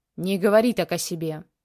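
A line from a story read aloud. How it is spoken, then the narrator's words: Growled. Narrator (Russian): рыкнул Захар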